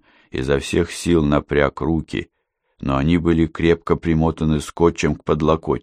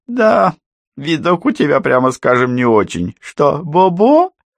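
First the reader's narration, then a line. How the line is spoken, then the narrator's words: Mocking laughter. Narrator (Russian): По издевательски расхохотался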